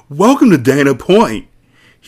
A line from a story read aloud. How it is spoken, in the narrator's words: he shouts at a startled rubber product salesman from Kyoto